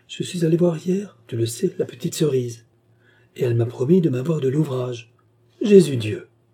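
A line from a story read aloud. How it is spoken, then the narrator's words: Indignant exclamation. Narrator (French): s'écria Gertrude indignée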